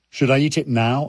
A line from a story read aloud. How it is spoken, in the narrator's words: I asked